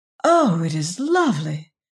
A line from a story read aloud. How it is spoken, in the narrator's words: she exclaimed